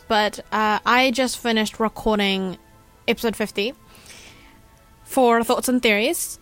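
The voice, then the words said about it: Sounds a little sick. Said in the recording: “if I sound a little sick... I'm just recovering from a fever”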